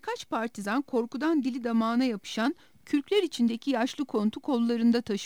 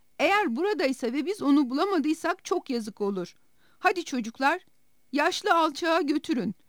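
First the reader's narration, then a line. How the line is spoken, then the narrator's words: Shouted. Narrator (Turkish): diye bağırdı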